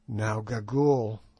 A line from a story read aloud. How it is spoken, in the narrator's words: said I, in a low voice